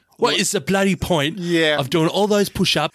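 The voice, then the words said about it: Rough, dodgy put-on accent. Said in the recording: “That's a rough accent. ... dodgy as fuck.”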